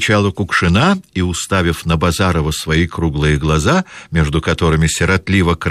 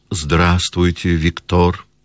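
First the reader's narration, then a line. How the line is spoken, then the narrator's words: Lazy drawl. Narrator (Russian): лениво промолвила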